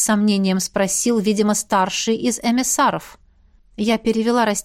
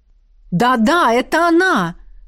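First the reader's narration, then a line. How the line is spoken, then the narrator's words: Young voice exclaiming eagerly. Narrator (Russian): воскликнул наиболее тоненький и молодой цварк из всей семерки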